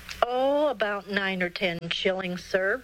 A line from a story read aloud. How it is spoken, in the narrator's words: replied William